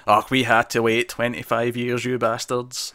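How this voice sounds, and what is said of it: Stereotypical Scottish old man voice. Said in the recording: “I did a really Scottish old man voice there ... very stereotypical Scottish”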